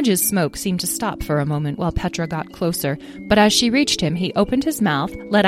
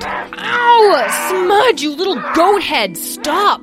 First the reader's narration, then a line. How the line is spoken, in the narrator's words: Petra yelled over the sounds of Smudge's grunting and growling